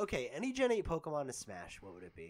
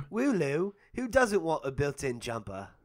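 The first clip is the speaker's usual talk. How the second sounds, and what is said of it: Put-on British accent. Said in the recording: “in the British accent”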